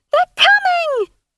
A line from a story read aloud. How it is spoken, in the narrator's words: she screamed about the din